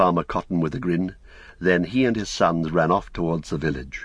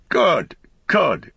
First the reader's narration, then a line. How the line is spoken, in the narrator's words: cried Farmer Cotton